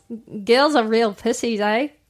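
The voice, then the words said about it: Put-on New Zealand accent. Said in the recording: “let's do a racist joke in that accent ... That's New Zealand. ... It is funnier in an accent.”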